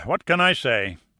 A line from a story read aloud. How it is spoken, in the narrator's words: Perlmutter sighed